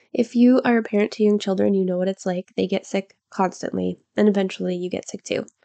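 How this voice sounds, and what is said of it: Stuffy congested voice, mouth breathing. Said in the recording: “I've got a cold right now, so I sound stuffy and I'm mouth breathing”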